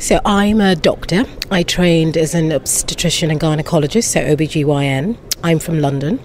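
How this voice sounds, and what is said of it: British accent. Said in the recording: “a to-die-for British accent”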